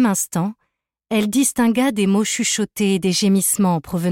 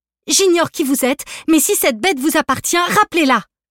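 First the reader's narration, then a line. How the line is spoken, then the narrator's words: Shouting. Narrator (French): cria-t-elle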